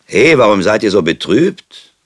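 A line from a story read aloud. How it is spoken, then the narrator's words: Sudden shout from farmer. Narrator (German): rief plötzlich ein Bauer aus der gegenüberliegenden Ecke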